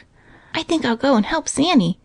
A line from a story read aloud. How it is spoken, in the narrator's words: whispered Johnny